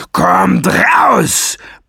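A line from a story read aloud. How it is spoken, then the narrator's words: Bellowed. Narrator (German): brüllte er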